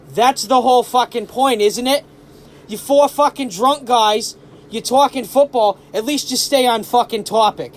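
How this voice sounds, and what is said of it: Thick South Boston accent. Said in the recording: “in a very thick South Boston accent”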